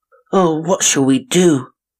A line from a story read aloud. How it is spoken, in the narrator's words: cried Blue Eyes